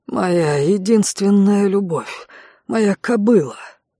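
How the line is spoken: Breathed out. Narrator (Russian): выдохнул мужчина

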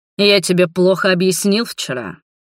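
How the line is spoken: Hissing dragon. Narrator (Russian): прошипел дракон

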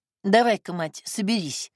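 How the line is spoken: Snorting. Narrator (Russian): фыркнула

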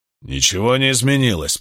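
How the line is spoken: Man growling. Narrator (Russian): прорычал мужчина со шрамом

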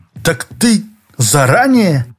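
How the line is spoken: Exclaiming. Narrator (Russian): воскликнул Шорохов

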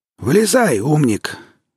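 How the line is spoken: Grim hoarse wheeze. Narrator (Russian): мрачно просипел второй

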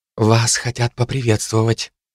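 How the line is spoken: Whispered. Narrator (Russian): шепнула мне Сильвер

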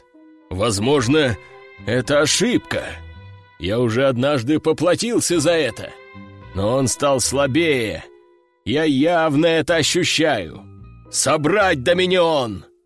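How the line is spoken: Growl. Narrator (Russian): прорычал Сефераль

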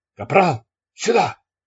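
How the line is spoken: Shout. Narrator (Russian): закричал сержант

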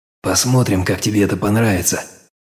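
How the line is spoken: Whispered. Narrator (Russian): прошептал

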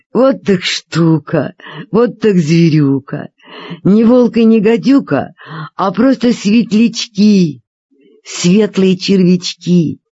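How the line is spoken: Father laughing. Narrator (Russian): папа засмеялся и сказал

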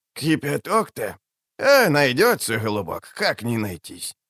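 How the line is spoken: Mumbling. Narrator (Russian): забормотала она

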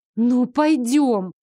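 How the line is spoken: Pleading. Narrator (Russian): Взмолилась я

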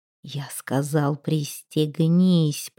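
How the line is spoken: Hissed through clenched teeth. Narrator (Russian): прошипел Арминтроут, не разжимая зубов

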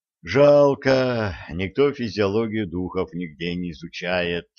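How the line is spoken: Sighing. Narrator (Russian): вздохнул Олег

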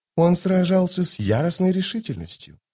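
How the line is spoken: Whispered into ear. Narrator (Russian): прошептала госпожа зависть на ухо Току

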